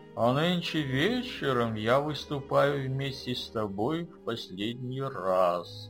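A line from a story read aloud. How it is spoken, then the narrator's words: Plain. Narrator (Russian): сказал фокусник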